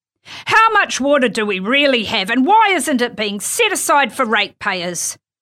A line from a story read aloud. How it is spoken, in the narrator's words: Andy hollered